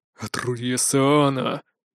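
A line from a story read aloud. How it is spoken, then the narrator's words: Angry werewolf hissing through teeth. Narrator (Russian): процедил кто-то из вновь набычившихся оборотней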